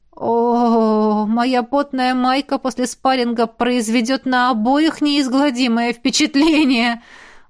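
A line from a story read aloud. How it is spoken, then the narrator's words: Groaning. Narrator (Russian): простонала квазара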